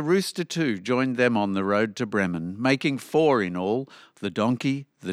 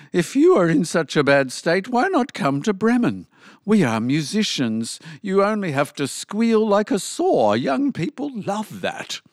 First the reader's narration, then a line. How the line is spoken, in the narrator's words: the donkey exclaimed